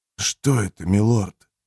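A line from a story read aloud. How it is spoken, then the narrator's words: Breathed out. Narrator (Russian): выдохнул Джемис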